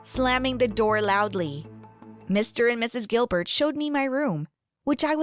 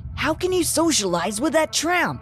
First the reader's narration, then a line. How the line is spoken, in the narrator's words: Nick asked angrily